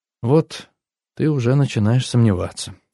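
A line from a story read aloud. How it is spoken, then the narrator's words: Sad. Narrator (Russian): грустно сказала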